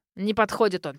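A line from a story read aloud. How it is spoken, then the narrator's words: Old man snorting sternly. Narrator (Russian): фыркнул дед, грозно сдвинув брови, заявил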